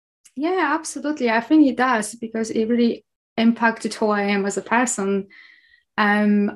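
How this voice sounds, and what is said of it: Polish accent with Scottish influence. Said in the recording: “I'm Polish, as you can hear probably in my accent. However, you can probably also hear some Scottish in my accent too”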